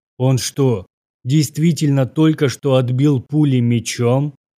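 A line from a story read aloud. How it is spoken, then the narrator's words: Shocked exhale. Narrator (Russian): Потрясенно выдохнул капитан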